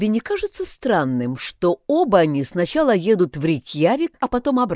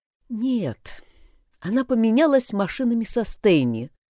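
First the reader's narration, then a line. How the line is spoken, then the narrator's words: Sighed. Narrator (Russian): вздохнула Тора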